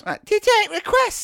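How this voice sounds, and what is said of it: Very squeaky imitated voice. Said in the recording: “She had a very squeaky voice.”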